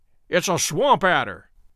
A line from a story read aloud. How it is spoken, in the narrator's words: cried Holmes